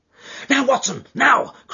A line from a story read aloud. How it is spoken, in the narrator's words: cried Holmes with frenzied eagerness